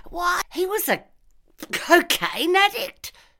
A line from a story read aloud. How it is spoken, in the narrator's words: spluttered Sergeant Eek